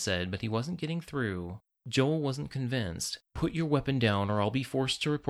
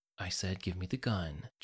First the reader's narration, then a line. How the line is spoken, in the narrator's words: Jonathan said in a tone that was so quiet it was almost a whisper